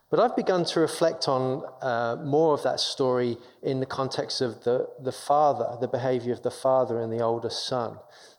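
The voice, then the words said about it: English London accent. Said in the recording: “as you can tell from my accent ... I'm from England. I'm born and raised in London”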